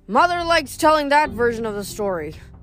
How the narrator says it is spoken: he grumbled

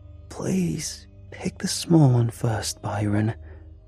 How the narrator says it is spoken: a hoarse voice wheezed

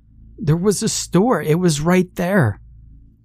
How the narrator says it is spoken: cried

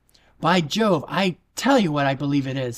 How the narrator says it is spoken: said her brother Joe excitedly

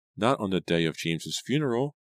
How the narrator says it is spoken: Angelica said in a quivering voice

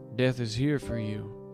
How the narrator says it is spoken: said

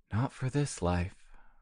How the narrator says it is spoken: murmured Gerard

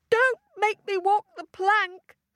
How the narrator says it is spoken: squealed Daisy

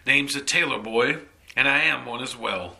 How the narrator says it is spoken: the man said, laughing loudly

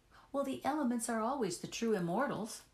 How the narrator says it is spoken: I replied, laughing as naturally as I could manage

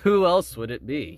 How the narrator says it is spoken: chuckled

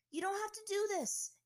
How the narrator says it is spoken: Aang yelled to him

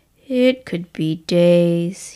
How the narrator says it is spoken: he said with a sigh

